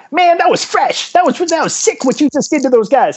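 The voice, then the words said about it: High-pitched hood rat raptor voice. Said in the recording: “please tell me you had a high-pitched voice at one point. ... Oh yeah, there was like the little like raptory looking guy ... like hood rat raptor”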